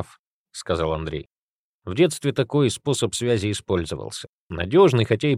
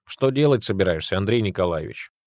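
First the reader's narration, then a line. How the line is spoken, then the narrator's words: Mocking question. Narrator (Russian): насмешливо спросил пещерник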